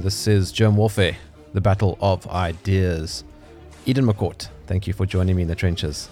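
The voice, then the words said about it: South African accent. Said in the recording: “I love yours. South African.”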